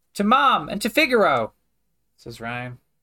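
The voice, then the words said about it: Younger-sounding character voice. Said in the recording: “I don't know why I'm doing a younger voice.”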